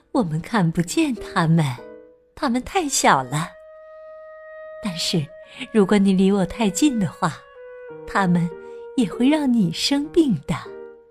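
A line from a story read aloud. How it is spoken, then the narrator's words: Smiling. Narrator (Chinese): 妈妈笑了，说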